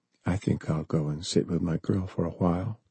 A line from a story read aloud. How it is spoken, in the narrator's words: he whispered